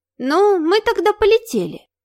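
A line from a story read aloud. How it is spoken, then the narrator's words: Innocent little voice. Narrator (Russian): невинным голоском спросила незабудка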